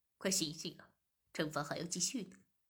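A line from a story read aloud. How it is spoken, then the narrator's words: Laughing. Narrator (Chinese): 我便笑着说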